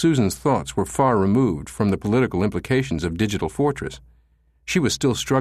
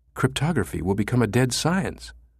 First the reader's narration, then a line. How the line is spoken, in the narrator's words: she whispered